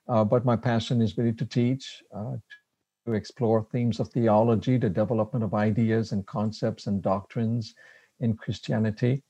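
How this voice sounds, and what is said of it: French Canadian accent. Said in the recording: “my accent, I am a French Canadian. I'm from Quebec City”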